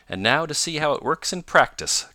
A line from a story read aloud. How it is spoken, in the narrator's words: cried Tom